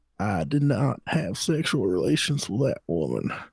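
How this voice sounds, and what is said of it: Imitates another person's voice. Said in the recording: “I don't know if I can do Bill that well. ... It's not that good.”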